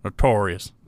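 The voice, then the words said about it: Bad Charles Barkley impression. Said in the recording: “I can't do a Barkley impression. That was horrible. ... That was terrible.”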